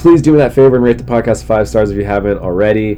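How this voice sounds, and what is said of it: Slightly congested voice. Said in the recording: “my voice is getting better. I'm slightly less congested today.”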